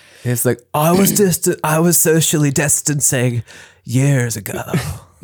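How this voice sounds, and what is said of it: Poor imitation of another person's voice. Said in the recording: “That's a terrible impression.”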